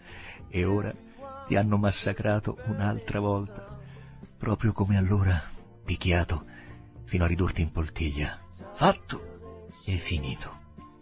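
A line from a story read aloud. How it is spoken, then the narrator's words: Murmured. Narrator (Italian): mormorò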